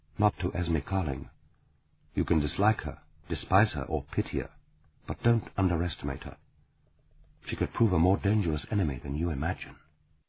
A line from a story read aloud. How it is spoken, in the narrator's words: Claudia said grimly